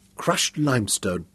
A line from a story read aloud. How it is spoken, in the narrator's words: he muttered